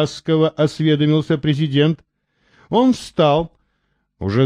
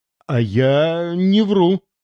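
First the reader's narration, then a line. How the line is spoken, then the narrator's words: Forced out, strained. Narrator (Russian): выдавил Антон Антонович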